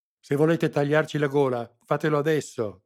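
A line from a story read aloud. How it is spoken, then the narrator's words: Sputtering shout. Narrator (Italian): gridò sputando saliva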